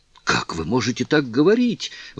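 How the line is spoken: Exclaimed. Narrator (Russian): воскликнула Кларинда

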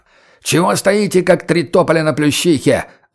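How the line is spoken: Yelling gamekeeper. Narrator (Russian): заорал егерь

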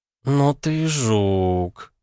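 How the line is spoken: Admiring drawl. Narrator (Russian): с восхищением протянула вампирша

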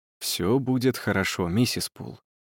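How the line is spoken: Quiet promise. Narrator (Russian): обещал он тихо

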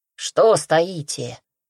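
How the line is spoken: Angry mutter, tiger. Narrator (Russian): сердито буркнул тигр

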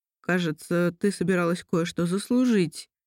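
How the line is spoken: Hoarse. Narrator (Russian): сказал хрипло Кирилл

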